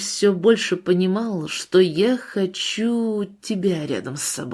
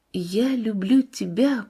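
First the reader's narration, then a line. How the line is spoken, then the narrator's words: Quiet but distinct. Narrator (Russian): прозвучали так тихо и в то же время так отчетливо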